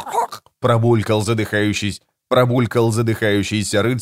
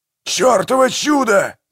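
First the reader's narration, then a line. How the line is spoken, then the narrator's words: Yelling. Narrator (Russian): завопил Манфред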